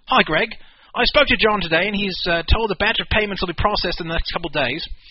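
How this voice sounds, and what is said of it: Put-on accent while reading aloud. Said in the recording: “Wait, you lost your accent.”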